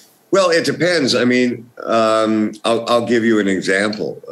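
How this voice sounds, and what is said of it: Usual voice. Nothing is said of it.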